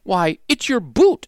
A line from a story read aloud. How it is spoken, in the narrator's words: exclaimed Pokey's mother